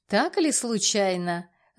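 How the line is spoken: Mocking. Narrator (Russian): насмешливо

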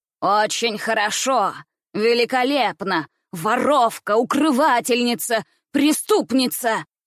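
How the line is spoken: Angry shouting. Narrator (Russian): кричала она

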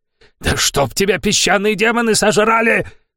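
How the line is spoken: Roaring. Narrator (Russian): проревел Самир

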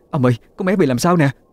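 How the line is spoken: Frightened cry. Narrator (Vietnamese): Mẹ tôi hoảng sợ mà kêu lên

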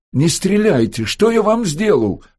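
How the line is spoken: Shouting, stalling. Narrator (Russian): крикнул он, чтобы выгадать время

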